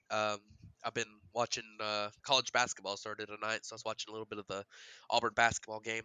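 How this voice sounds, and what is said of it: Slightly congested voice. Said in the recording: “I've got a little bit of a cold”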